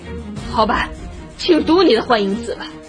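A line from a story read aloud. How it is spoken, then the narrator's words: Angry. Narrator (Chinese): 菲迪南自知失态，怒气十足地说道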